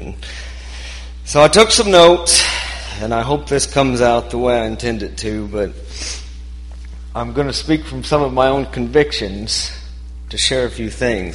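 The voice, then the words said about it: Shaky, nervous voice. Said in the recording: “Obviously, I'm not comfortable. My voice is shaking.”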